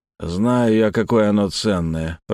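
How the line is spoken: Grumble. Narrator (Russian): проворчал Малдун

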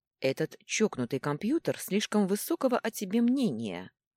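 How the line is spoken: Plain. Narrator (Russian): сказал он

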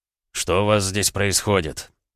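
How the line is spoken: Quiet question. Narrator (Russian): тихо поинтересовался Андрей

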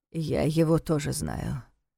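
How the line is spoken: Gloomy remark. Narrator (Russian): мрачно заметил Неф

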